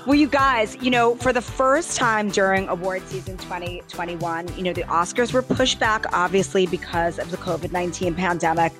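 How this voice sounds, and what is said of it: Tired, slightly hoarse voice. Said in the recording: “I sound a little bit tired, don't I? ... A little hoarse.”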